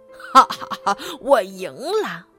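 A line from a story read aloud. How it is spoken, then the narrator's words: Sinister laugh. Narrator (Chinese): 他狞笑道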